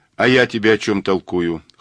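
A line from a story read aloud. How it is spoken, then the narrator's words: Snorting grunt. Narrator (Russian): хмыкнул Мазур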